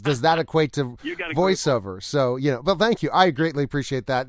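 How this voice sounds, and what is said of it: Resonant radio-style speaking voice. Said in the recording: “you've got a radio voice ... Radio voice.”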